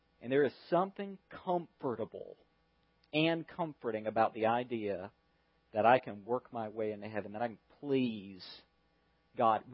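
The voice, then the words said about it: Southern American accent. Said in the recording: “I have a southern accent. It's one of my great prides. I love my southern accent.”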